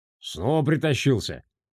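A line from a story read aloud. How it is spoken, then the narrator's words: Dismissive grunt. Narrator (Russian): хмыкнул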